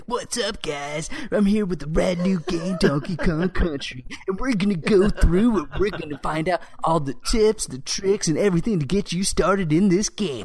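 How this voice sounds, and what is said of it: Hyped 90s teen video host voice. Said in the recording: “a dude, you know, who's you know representative of the '90s, you know, probably like 16 years old ... I so love your impersonation”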